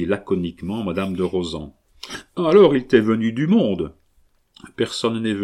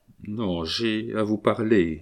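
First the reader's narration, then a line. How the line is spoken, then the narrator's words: Somber voice. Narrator (French): dit la créole d'une voix sombre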